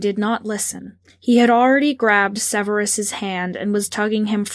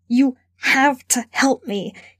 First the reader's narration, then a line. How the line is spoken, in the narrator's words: he gasped